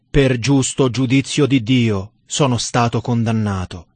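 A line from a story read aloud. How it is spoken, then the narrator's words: Dead man's terrible voice. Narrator (Italian): il morto esclamando con voce terribile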